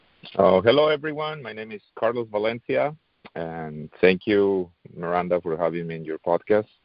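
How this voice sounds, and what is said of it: Non-native English accent. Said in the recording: “my accent is not the best ... still working on my accent, still working on my English”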